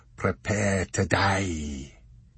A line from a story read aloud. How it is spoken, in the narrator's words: he said in a dangerous trollish voice